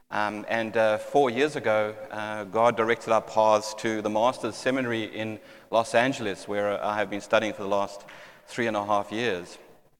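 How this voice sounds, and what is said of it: South African accent. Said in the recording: “my accent gives me away, but I am South African by birth”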